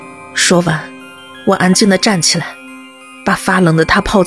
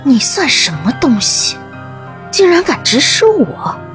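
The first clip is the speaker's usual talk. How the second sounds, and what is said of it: Whispered angry scolding. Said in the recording (Chinese): “在他耳边小声骂道”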